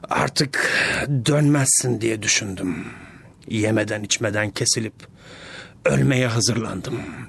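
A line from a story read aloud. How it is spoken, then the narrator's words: Monster's whisper. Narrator (Turkish): demiş canavar fısıltılı bir sesle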